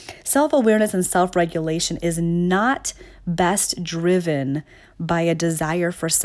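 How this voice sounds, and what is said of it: Usual voice. Nothing is said of it.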